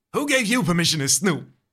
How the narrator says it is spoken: He snaps

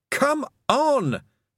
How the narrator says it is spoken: Tiffany yelled

